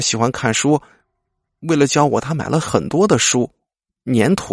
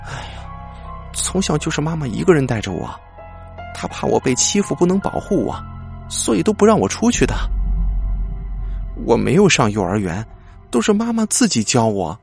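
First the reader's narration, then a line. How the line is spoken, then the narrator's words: Long sigh. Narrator (Chinese): 小文长长叹了口气说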